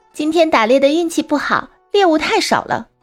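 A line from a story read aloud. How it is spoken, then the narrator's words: Woman speaking. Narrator (Chinese): 一个女子说道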